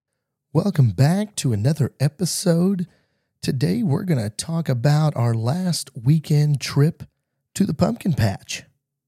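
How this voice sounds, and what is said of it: Strained voice close to giving out. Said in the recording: “excuse my voice. I'm going through some allergies right now, so I know it probably doesn't sound the same ... you might hear my voice fade in and out. I'm on the verge of losing it”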